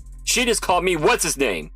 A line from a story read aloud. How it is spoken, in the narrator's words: Jefferson roared